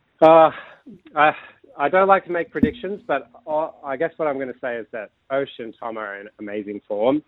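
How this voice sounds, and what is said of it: American accent. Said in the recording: “I detect a little bit of an accent there ... I just can't get rid of my American accent”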